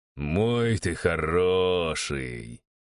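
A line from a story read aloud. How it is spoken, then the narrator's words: Drawn out, smiling. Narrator (Russian): протянул я, улыбаясь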